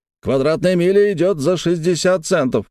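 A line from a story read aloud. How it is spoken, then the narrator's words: Shouted out. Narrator (Russian): выкрикнул Флинт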